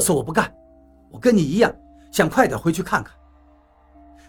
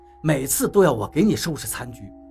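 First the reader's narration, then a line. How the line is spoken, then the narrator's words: Cold. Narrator (Chinese): 我冷冷地说道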